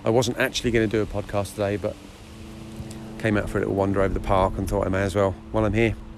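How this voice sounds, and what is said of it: Tired-sounding voice. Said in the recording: “hear the tiredness in my voice”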